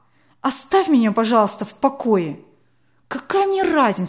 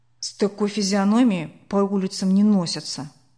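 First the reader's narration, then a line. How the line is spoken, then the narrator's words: Grumbled reply. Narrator (Russian): буркнул Сашка в ответ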